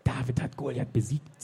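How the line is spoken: Witch's hiss. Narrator (German): zischte die Hexe

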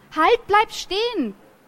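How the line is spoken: Shouting after someone. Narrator (German): schrie ich ihm hinterher

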